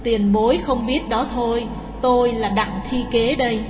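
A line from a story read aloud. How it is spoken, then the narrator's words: Sighing. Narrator (Vietnamese): Người kia thở dài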